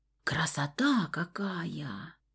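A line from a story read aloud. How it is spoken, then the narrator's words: Breathless awe. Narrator (Russian): выдохнула Стаська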